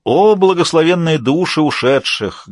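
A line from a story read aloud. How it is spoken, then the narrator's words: Exaggerated mock-tragic tone. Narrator (Russian): говорил кукольник нарочито трагическим тоном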